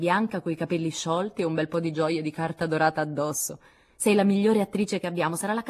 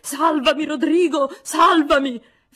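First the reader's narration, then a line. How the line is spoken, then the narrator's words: Melodramatic bloodcurdling scream. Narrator (Italian): fece Joe in un melodrammatico urlo da far accapponare la pelle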